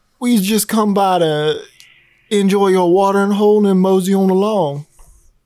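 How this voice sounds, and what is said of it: Cowboy voice impression. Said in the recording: “doing his best cowboy impression”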